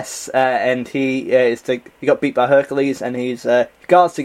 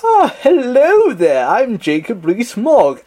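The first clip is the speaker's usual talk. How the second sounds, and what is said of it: Put-on very posh upper-class English accent. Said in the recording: “very, very posh, like very upper-class ... Is this a good posh accent? ... Yeah, I'll give it that.”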